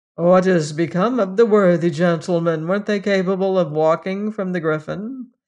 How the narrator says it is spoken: asked Esmond dryly

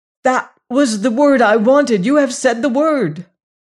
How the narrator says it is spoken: he cried

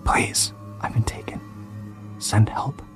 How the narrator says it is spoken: whispered

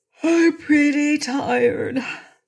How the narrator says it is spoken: admitted Trot, yawning

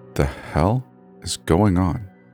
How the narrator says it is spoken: muttered under my breath

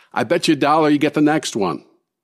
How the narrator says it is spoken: one of the investors shouts out

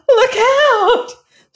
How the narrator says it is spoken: screamed a voice

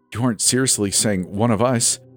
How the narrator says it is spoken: Jesse stammered

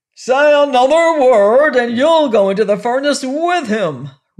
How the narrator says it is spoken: roared the king

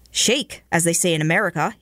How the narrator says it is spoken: he said

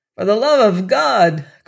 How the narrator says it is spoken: cried suddenly, putting off all self-restraint

